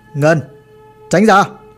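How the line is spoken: Stern command. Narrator (Vietnamese): bác Dũng mới nghiêm giọng mà ra lệnh

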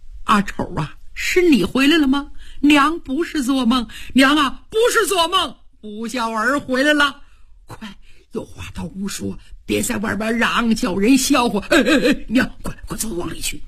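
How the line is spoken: Tearful, crying. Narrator (Chinese): 哭了好半天

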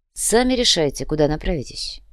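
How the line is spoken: Grumbled. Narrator (Russian): буркнул Сантьяго

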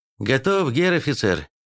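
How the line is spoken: Cheerful brisk report. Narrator (Russian): сообщил унтер радостным тоном, исполнившего приказ четко и быстро

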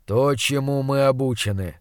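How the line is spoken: Grim. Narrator (Russian): мрачно ответил он

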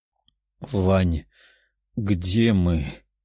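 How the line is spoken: Tired princess asking. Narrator (Russian): уставшим голосом спросила принцесса

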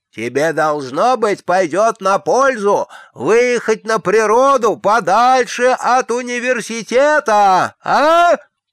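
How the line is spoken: Shouted. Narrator (Russian): прокричал арк-канцлер

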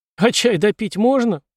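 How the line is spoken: Whining. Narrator (Russian): прохныкала Пенни

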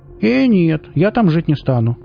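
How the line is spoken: Quick exclamation. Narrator (Russian): тут же воскликнула Оля

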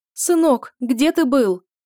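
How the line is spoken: Exclaiming. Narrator (Russian): воскликнула Сибелла

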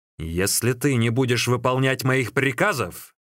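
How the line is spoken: Angry shout. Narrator (Russian): сердито закричал Сун Цзян

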